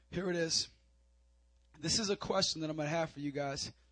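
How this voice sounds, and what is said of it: Strained, fading voice. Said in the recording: “My voice is leaving me.”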